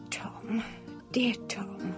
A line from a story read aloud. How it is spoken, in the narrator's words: she murmured